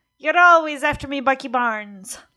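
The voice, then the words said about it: Put-on Irish accent. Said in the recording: “It's pretty swell Irish accent, wasn't it?”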